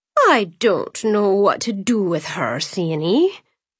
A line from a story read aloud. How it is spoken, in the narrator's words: her mother groaned